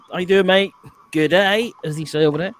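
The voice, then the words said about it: Bad put-on Australian accent. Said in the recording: “That was my shittest Australian accent. That was awful.”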